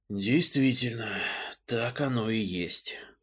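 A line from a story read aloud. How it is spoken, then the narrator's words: Muttered aloud. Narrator (Russian): вслух пробормотал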